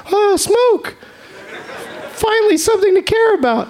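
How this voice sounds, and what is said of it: Imitates a British child's voice. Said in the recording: “My great impression of a British child.”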